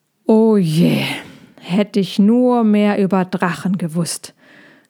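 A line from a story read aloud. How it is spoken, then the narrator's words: Hedgehog sighing. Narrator (German): seufzte der Igel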